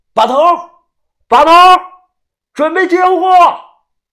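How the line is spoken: Shouting loudly. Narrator (Chinese): 大喊

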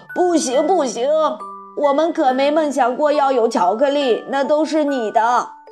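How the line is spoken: Group shouting. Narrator (Chinese): 其余的人也都叫了起来

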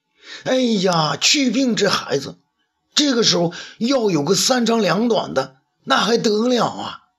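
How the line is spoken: Loud alarmed shout. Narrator (Chinese): 魏少儿大声叫道

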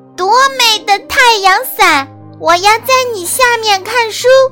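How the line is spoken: Loud shout, small beetle. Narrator (Chinese): 小甲虫 大声喊

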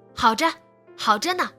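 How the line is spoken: Shouted. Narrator (Chinese): 他喊

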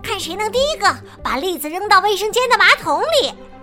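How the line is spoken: Loud. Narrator (Chinese): 马哥就会立刻大声说

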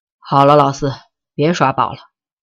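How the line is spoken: Long sigh. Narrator (Chinese): 江淮 终于他长叹了一声

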